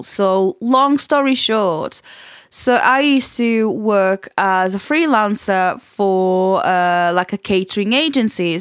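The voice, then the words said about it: Portuguese accent mixed with Yorkshire. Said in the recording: “what is that accent? I cannot place it ... I'm Portuguese and I have lived in Leeds, West Yorkshire for a long time ... I'm one of those people that picks up accents really, really easily”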